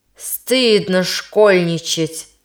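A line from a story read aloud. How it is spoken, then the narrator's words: Stern. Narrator (Russian): произнес он строго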